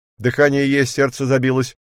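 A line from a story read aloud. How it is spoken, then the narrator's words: Joyful shouting. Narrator (Russian): закричал радостно человек у прибора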